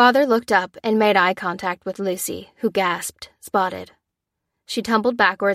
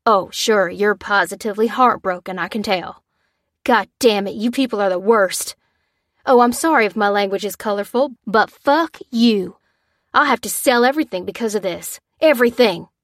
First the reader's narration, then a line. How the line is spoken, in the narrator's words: he growled